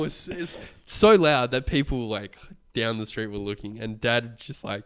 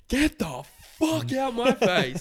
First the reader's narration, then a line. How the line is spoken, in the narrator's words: he just screamed